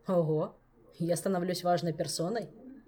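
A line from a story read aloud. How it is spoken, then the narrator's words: Amused snort. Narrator (Russian): хмыкнул Кантор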